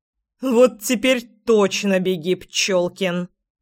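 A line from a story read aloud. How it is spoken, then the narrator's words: Menacing growl. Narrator (Russian): грозно прорычала я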